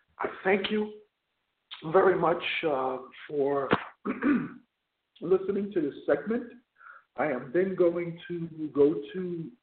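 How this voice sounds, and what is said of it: Hoarse, strained voice. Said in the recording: “Excuse me, losing my voice a little bit. ... losing my voice a little bit, bear with me”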